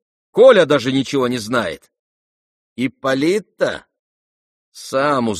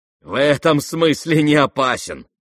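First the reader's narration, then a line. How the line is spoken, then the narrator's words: Spiteful laugh. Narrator (Russian): сказал Ганя, злобно засмеявшись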